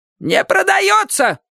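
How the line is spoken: Sudden shout, female. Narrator (Russian): вдруг закричала она

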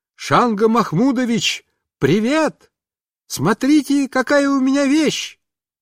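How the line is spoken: Loud shout. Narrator (Russian): я громко закричал

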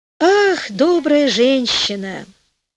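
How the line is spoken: Sighing reply, queen. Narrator (Russian): ответила, вздохнув, королева

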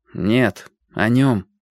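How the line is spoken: Gloomy objection. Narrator (Russian): возразил я довольно мрачно

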